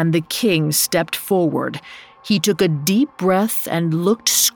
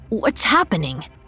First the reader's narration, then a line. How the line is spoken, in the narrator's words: Milorad whispered